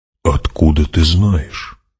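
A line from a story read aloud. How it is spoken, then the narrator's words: Whisper. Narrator (Russian): прошептал он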